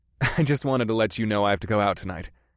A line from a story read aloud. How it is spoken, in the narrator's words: I said with a chuckle